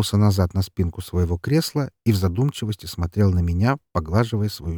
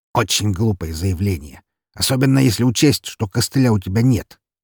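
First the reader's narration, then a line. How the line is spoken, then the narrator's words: Snorted. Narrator (Russian): хмыкнул он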